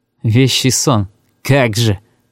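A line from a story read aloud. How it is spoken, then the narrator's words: Muttered through teeth. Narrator (Russian): процедил он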